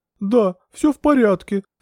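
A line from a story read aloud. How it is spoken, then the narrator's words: Sobbing. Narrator (Russian): всхлипнула Алевтина Павловна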